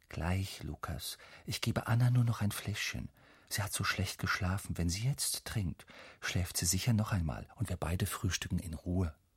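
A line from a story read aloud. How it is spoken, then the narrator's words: Mother whispering. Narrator (German): Mama flüstert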